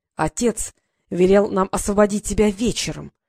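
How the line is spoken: Sinister hiss. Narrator (Russian): прошипел Норт зловеще

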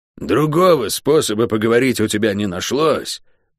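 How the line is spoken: Hoarse rasp. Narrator (Russian): прохрипела она

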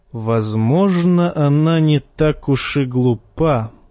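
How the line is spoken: Plain. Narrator (Russian): сказал он вслух

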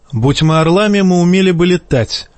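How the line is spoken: Snapped back. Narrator (Russian): огрызнулся Жаен

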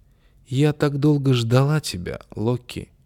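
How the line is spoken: Tender, affectionate voice. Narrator (Russian): ласково сказал

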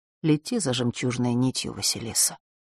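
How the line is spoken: Soft. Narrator (Russian): тихо произнесла госпожа Делш

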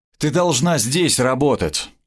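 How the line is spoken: Tired interruption. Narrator (Russian): устало прервал

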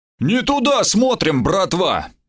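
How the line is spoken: Sudden bark, goblin. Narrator (Russian): неожиданно гаркнул гоблин

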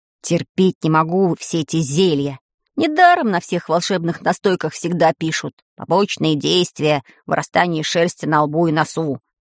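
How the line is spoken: Grumbling. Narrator (Russian): ворчал Ванька

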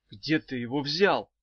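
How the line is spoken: Whisper. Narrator (Russian): шепнула Ирка

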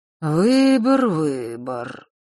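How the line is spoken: Gloomy, absent-minded mutter. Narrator (Russian): мрачно пробормотал Нортон-старший, словно в забытии

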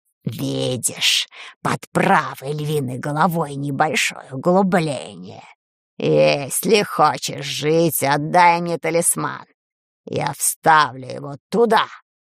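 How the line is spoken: Hoarse wheeze. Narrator (Russian): Просипела та, кого нет

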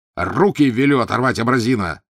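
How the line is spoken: Barking in French. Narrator (Russian): рявкнул он на куафера по-французски

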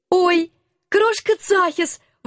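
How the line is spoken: Delighted squeal. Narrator (Russian): восторженно взвизгнула я

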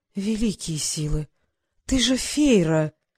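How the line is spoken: Breathless exclamation. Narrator (Russian): выдохнула Елена

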